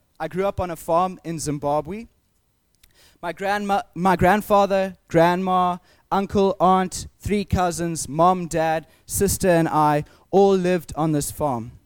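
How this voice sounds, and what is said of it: Southern African accent. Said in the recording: “some of you know this from my accent. I come from Southern Africa.”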